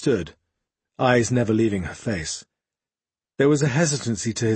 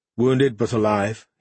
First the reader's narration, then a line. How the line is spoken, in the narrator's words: he said